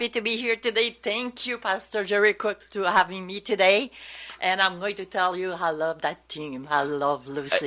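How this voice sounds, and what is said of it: Speaks with a noticeable accent. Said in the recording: “if you detected any kind of an accent, that's because she has one.”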